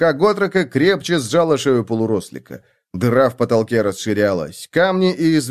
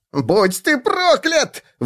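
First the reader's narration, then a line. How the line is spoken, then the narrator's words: Howled. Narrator (Russian): взвыл тот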